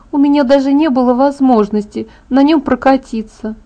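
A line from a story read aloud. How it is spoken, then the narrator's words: Sigh. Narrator (Russian): вздохнула она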